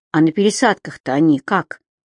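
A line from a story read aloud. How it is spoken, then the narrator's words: Timid question. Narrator (Russian): робко спросила Женя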